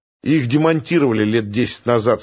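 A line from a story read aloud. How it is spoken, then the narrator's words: Plain. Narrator (Russian): сказал Мигунов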